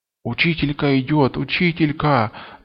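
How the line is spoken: Boys whispering. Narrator (Russian): зашептали мальчишки

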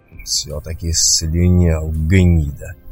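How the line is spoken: Muttered through clenched teeth. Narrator (Russian): процедил сквозь зубы киргиз

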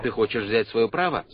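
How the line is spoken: Plain. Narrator (Russian): спросил пророк

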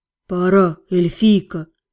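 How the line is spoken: Breathless exhale, dragon. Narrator (Russian): Выдохнул дракон

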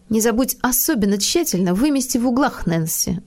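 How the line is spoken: Sharp tone. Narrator (Russian): закончила она резким тоном

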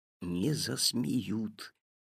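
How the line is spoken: Whisper. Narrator (Russian): также шепотом ответил папа

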